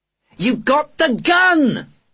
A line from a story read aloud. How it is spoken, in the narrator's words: He screamed